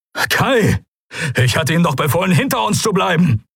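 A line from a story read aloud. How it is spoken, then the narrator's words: Calling out. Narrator (German): rief Helios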